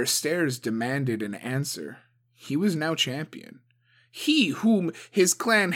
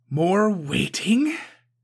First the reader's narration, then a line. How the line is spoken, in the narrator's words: Suko spat